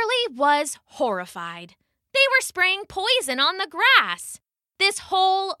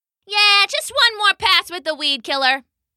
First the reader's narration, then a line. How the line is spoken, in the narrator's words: the human shouted back